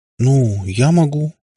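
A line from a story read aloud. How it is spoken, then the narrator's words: Uncertain. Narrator (Russian): неуверенно сказала Катя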